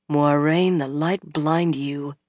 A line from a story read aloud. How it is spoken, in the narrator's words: she muttered